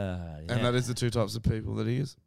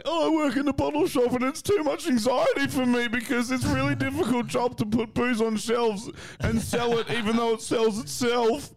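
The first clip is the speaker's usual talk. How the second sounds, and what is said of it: Imitates another person's voice. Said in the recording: “my other impersonation of John Kelly”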